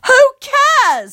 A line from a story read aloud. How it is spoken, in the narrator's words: I yell, because I hate him